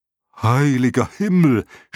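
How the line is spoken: Dragon shouting. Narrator (German): schrie der Drache

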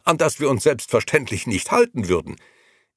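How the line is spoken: Interrupting call. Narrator (German): rief der andere dazwischen

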